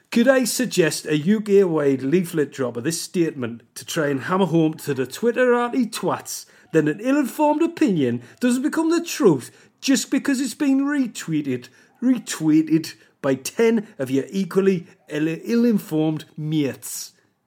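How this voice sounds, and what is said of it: Shaky attempted Geordie accent. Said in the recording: “I don't know where this accent's going. This is the worst. I'm just normally able to do this accent... that's the way you get the Geordie accent”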